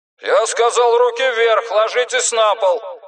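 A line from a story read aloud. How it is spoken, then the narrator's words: Shouting through distant megaphone. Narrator (Russian): закричал сотрудник датской полиции Ян Хеск, стоявший поодаль с мегафоном в руке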